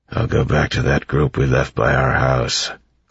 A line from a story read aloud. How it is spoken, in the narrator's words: Club said in a grumbling voice